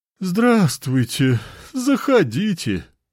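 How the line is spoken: Resigned sigh, inviting. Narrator (Russian): Обреченно вздохнув, пригласил хозяин

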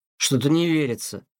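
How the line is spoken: Irritated meow. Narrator (Russian): мяукнул раздраженно Тихон

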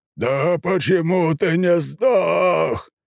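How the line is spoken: Roar. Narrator (Russian): проревел свиноголовый бог

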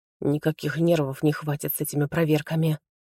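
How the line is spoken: Whispering. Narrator (Russian): снова прошептала Заря

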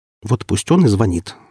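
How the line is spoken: Sharp, curt dismissal. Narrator (Russian): отрезал я, показывая резким тоном, что больше не хочу возвращаться к обсуждаемому вопросу

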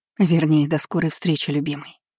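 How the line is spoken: Breathed out. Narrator (Russian): Выдохнула я

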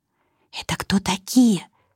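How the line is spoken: Whispered question. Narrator (Russian): почему-то шепотом спросила Вика

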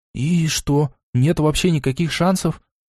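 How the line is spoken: Hopeless voice. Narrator (Russian): спросил я безнадежным голосом

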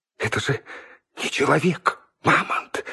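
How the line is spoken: Fearful whisper. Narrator (Russian): в страхе зашептала Инга

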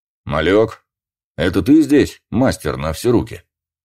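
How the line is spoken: Commanding voice. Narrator (Russian): командным голосом спросил Трошин

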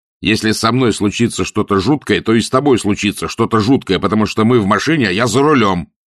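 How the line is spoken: Barked. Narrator (Russian): рявкнул Анджело

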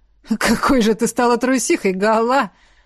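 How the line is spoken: Laughing, teasing. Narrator (Russian): рассмеялся Кворк

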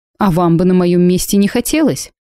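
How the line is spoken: Snorting. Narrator (Russian): фыркнула я

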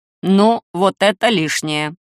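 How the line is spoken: Grumbling. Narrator (Russian): проворчал Посейдон

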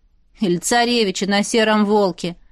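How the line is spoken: Smirking snort. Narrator (Russian): хмыкнула вторая подруга Динара

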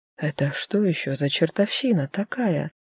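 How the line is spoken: Whispered. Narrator (Russian): прошептала

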